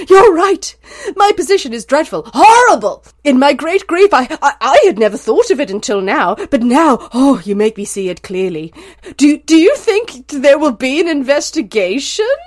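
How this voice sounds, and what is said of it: Dramatic, over-the-top character voice. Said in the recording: “I'm not going to do it in a French accent. I'm just going to do it in a dramatic Fey accent. I'll do it in a dramatic accent.”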